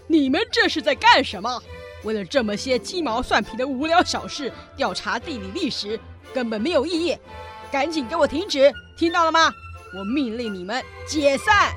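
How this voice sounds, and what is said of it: Booming loud lion voice. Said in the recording (Chinese): “狮子用洪亮的声音说”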